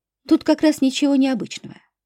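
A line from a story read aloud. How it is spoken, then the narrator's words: Calm woman. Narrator (Russian): спокойно ответила женщина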